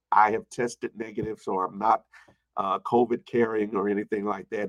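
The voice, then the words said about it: Congested, weaker voice. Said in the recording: “You might already hear kind of congested right now ... I am a little bit congested ... my voice is a little not as strong as it was”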